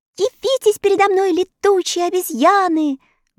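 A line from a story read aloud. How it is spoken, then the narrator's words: Loud shout. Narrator (Russian): громко закричала Элли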